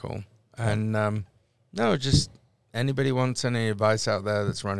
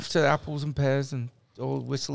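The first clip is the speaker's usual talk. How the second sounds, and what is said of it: Put-on Cockney accent. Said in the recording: “Brought back my Cockney accent”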